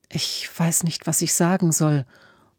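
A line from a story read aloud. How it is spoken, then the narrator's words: Murmured. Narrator (German): murmelte Emma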